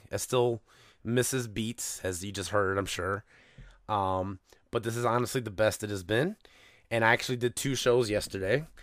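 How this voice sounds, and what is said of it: Crackling voice from a cold. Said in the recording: “I am just getting over a cold. And this is the best my voice has sounded in a week. It's still crackling.”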